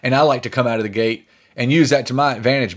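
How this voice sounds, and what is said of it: Distinct Southern American accent. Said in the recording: “I still have a very distinct Southern accent.”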